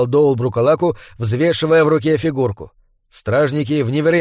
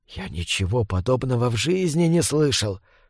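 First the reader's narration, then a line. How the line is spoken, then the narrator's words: Whispering group. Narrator (Russian): шептали они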